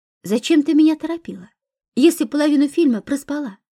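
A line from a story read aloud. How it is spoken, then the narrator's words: Cheerful question. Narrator (Russian): весело поинтересовалась подруга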